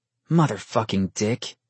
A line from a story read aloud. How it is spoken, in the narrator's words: Vincent growled